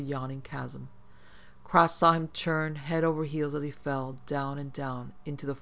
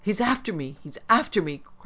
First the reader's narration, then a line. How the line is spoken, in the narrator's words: Cross cried